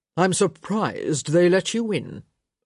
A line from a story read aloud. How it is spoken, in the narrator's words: Lord Sinclair said, his voice deceptively placid